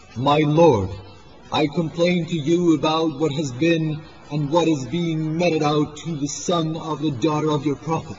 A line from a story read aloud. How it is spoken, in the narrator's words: Imam exclaimed